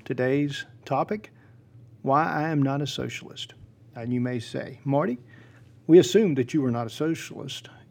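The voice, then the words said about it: Southern US accent. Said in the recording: “You are from South Georgia. You speak with a southern accent.”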